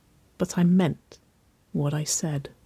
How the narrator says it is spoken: she murmured, her voice a little lower

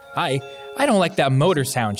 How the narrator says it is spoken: she stammers

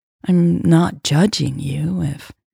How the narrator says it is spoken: said slowly

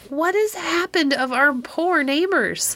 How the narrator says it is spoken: cried these kind-hearted old people

